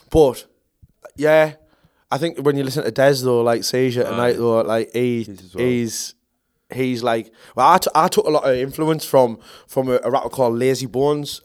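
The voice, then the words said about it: Mackem (Sunderland) English accent. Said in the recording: “you're Macam obviously ... it has dumbed down my accent a little bit ... It's still there”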